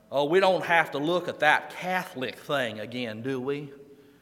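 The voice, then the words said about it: Put-on Southern US accent. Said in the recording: “when I go to the South is, and let me see if I can get the accent right”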